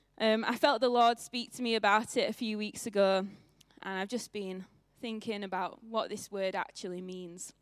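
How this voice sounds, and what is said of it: Northern English accent. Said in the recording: “in a northern accent”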